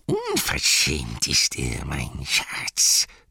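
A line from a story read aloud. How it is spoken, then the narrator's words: Hissing. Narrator (German): zischte Gollum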